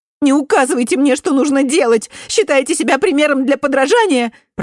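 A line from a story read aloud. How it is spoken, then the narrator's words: Shrill shout. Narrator (Russian): пронзительно выкрикнула Сара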